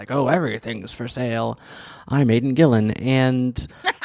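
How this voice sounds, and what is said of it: Imitates another person's voice. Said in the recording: “That's a pretty good impression. Like, I'm impressed.”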